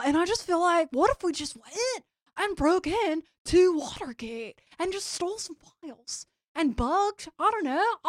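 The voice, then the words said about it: Playing a Watergate burglar. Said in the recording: “That's my impression of the seven men who broke into the DNC.”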